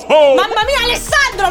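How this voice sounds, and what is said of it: Shouting. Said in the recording (Italian): “anche tu stai urlando”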